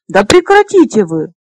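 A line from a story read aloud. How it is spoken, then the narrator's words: Burst of laughter. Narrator (Russian): расхохоталась Лесса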